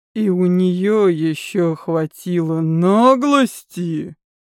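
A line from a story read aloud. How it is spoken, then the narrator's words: Hissed through teeth. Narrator (Russian): прошипел Элиф сквозь зубы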